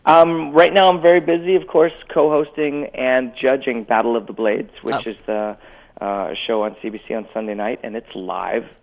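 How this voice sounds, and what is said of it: Rough voice. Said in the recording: “I think that's why my voice is all rough. I'm just not sleeping”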